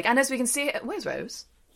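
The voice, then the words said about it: Put-on British accent. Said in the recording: “the British accent. Good for you.”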